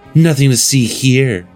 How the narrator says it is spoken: she purrs, content

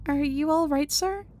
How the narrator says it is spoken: I meekly but sincerely ask

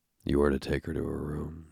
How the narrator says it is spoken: he said in a husky voice

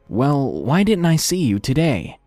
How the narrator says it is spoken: I hesitantly asked

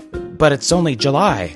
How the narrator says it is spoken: said in a shaky voice

